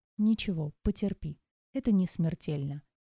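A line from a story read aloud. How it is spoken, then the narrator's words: Soft, healer's voice. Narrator (Russian): мягко произнес лекарь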